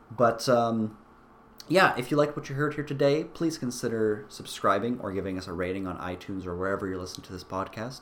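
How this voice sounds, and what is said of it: Weak, sick, fading voice. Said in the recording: “My voice is kind of giving out. I am still sick.”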